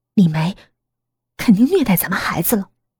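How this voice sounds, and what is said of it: Quiet, hushed speech. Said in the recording (Chinese): “小声”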